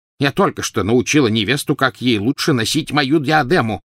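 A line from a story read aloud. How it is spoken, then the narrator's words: Shouted. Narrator (Russian): крикнула она Гарри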